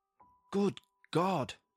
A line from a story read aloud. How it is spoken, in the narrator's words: I exclaimed